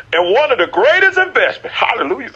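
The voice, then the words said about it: Yelling preacher. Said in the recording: “I'm yelling again. I'm yelling again. I'm yelling again.”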